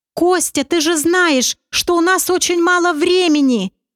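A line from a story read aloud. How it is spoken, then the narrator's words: Near shouting. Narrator (Russian): Аврора практически кричала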